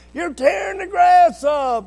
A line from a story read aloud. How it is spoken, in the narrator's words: Mom would yell